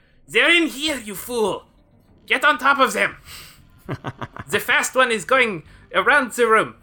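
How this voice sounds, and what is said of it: Attempted French accent, not convincing. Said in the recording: “I never claimed I could do a French accent.”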